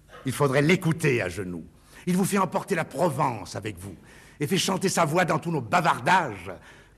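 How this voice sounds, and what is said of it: Distinctive regional French accent. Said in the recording (French): “sa gouaille, sa voix, son humour et son accent auquel il tenait particulièrement”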